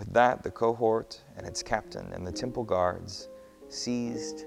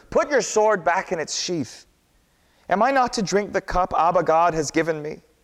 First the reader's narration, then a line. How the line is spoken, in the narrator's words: Jesus cried to Peter